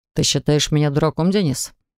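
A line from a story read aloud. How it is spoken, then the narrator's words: Joyless snort. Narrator (Russian): Максим невесело хмыкнул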